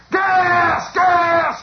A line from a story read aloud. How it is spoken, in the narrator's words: he hollers